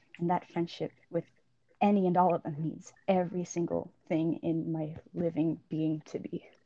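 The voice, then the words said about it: Emotional voice breaking. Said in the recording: “My voice is breaking.”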